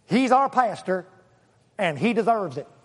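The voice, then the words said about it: Bad put-on Southern accent. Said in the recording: “He was in the South, I think. ... That's a horrible accent”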